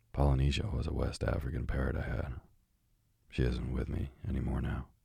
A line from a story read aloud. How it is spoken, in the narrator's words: said the doctor sadly